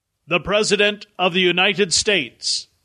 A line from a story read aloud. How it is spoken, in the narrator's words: a booming voice intoned